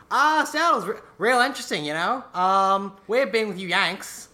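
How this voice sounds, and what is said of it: Put-on accent, drifting and inconsistent. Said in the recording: “I don't know where this accent's going anymore. I lost control of it.”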